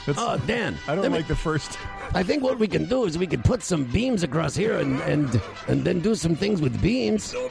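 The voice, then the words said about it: Put-on Mexican accent. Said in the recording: “Why does it have an accent? ... Salsa style. ... Mexican accent.”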